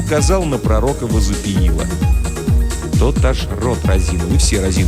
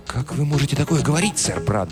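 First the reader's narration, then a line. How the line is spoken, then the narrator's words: Fervent whisper. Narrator (Russian): горячо прошептал король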